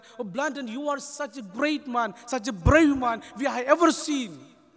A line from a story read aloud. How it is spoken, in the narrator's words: people gathered around him, praising him, shouting, saying that